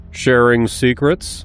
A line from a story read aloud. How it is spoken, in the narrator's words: he asked